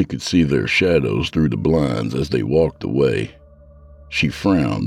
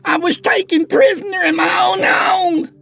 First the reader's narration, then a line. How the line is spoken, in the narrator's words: She screamed frantically